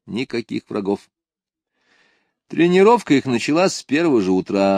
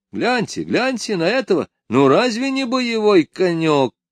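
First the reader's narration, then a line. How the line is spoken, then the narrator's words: Shout, Irish groom. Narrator (Russian): крикнул конюх-ирландец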